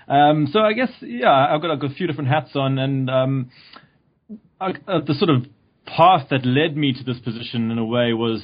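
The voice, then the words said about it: South African accent. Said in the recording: “I came from South Africa, which you might tell from my accent.”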